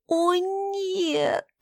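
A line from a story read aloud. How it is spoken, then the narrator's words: Moaning. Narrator (Russian): простонала я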